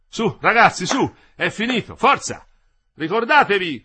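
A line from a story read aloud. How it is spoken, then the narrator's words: Loud, far-carrying shout. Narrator (Italian): gridò Madì perché la sua voce arrivasse in ogni angolo della tettoia e del cantiere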